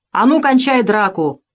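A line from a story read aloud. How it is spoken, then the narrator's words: Commanding male shout. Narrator (Russian): крикнул он властно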